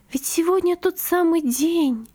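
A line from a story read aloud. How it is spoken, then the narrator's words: Whispering. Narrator (Russian): прошептала она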